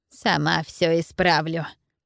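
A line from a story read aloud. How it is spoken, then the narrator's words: Strange, altered voice. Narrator (Russian): не своим голосом продолжила тетушка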